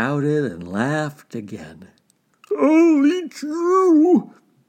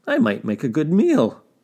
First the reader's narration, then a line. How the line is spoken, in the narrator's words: laughed Fox